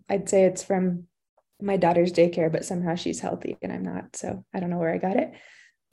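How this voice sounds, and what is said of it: Sick-sounding voice. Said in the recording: “I sound terrible. I have a little cold.”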